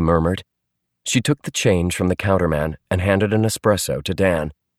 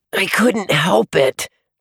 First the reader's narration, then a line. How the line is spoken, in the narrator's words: Dan wheezed